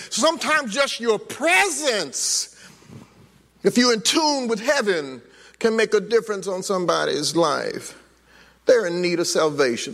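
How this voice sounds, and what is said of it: Screaming preacher delivery. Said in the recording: “That's what I'm screaming.”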